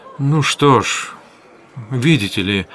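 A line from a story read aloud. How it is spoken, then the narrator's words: Very hesitant. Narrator (Russian): начал он, наконец, очень неуверенно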